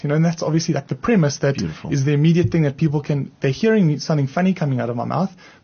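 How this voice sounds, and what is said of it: South African accent. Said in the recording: “I'm from South Africa. And that's why I have this strange accent ... I have an accent because I'm from South Africa”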